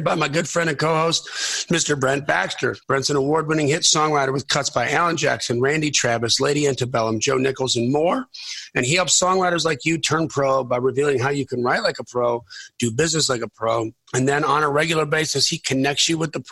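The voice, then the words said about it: Strained, fading voice. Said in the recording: “I'm losing my voice. ... Yes, you are. ... my co-host, who is losing his voice”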